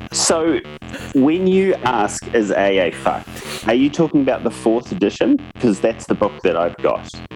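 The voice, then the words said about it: Slight regional accent. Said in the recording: “you do have a bit of an accent”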